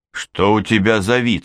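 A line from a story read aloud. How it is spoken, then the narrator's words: Plain. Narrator (Russian): спросил он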